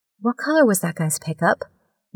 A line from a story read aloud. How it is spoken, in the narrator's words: Nicole asked quietly